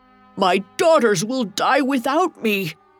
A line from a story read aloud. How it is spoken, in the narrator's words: Choking, Timo craned his head toward the surface and shouted